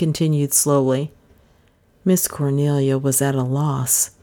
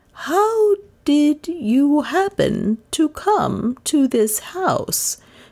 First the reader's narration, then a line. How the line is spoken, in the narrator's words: persisted, her voice unconsciously tuning itself to the slow, laborious speech of the unknown